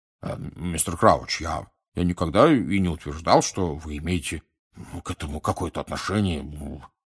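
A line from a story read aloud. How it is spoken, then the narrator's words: Embarrassed mumbling. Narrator (Russian): пробормотал Амос Дигори пунцово краснея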